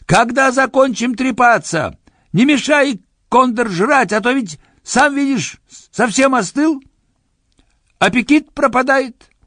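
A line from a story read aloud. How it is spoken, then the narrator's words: Impatient shout. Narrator (Russian): Кто-то, заметив, что суп остывает, выкрикнул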